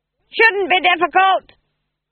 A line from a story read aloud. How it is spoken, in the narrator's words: screamed Granny above the noise of the wind